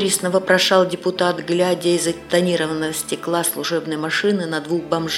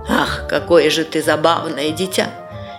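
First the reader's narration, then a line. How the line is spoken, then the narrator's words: Condescending adult laughter. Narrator (Russian): снисходительно засмеялись взрослые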